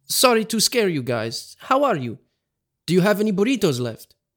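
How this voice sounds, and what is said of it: Put-on Italian accent. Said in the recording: “in his Italian accent”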